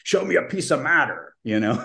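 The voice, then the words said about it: Imitation of David L. Schindler. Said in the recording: “That was a pretty good imitation of David L. Schindler”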